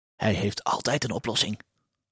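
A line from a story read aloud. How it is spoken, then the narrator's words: Whispering. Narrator (Dutch): fluisterde kleermakers Piet tegen Huispiet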